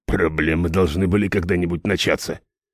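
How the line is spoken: Grumbling mercenary. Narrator (Russian): проворчал наемник

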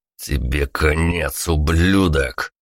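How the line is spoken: Growled. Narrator (Russian): прорычал

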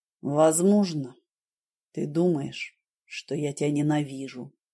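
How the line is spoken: Soft. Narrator (Russian): мягко сказал он

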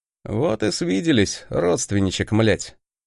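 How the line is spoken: Snorting smirk. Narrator (Russian): хмыкнул я

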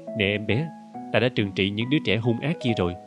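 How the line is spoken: Smiling, gentle. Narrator (Vietnamese): Tôi mỉm cười với nó

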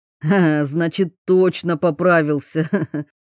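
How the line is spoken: Laughing. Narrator (Russian): засмеялся Белкин

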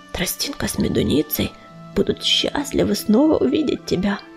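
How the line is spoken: Whisper. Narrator (Russian): шепнул он

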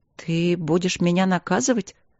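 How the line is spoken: Timid question. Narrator (Russian): робко спросила жена

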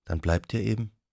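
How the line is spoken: Soft. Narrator (German): sagte sie leise

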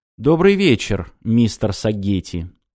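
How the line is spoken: Cold reply. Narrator (Russian): холодно отозвался Ормонд

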